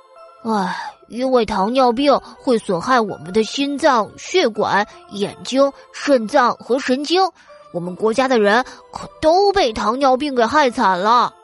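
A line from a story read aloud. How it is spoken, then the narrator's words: Boy sighing. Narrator (Chinese): 小男孩说着，叹了口气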